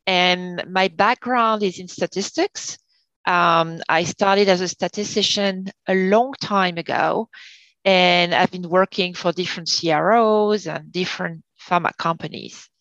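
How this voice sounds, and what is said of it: Non-American, French-origin accent. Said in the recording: “as I'm sure you can hear, you know, that I don't have an American accent. So my career started in France.”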